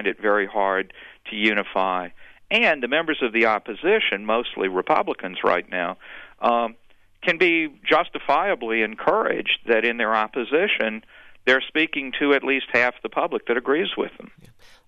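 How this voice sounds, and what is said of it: Slight Alabama Southern US accent. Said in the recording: “I hear a little bit of a accent from Arkansas with your current speaker ... a little further east. I grew up in Alabama.”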